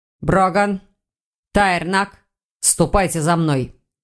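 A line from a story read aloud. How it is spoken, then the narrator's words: Grim command. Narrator (Russian): Велел Хьюго, упирая руки в бока и мрачно глядя на учеников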